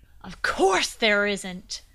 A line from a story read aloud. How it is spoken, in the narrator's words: the knight shouted